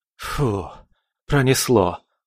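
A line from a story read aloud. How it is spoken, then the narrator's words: Relieved exhale. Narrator (Russian): выдохнул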